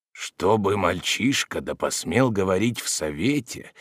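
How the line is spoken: Old man muttering. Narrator (Russian): бормотал старый Ухглук

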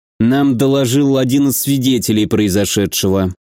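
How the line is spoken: Through gritted teeth. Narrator (Russian): сквозь зубы проговорил Виктор

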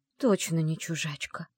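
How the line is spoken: Surprised whisper. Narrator (Russian): удивленно прошептала она

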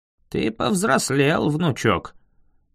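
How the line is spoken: Dry remark. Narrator (Russian): сухо заметил незнакомец

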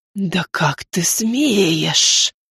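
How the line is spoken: Breathed through teeth. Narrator (Russian): выдохнула сквозь зубы женщина

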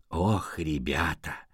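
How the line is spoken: Sighing. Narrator (Russian): Леопольд вздохнул

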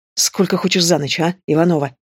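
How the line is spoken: Hissed through teeth. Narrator (Russian): шипит сквозь зубы

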